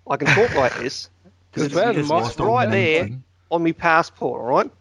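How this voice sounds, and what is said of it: Deliberately bad put-on Australian accent. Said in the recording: “I can use the accent all I want. No matter how terrible I actually sound when I try and sound Australian”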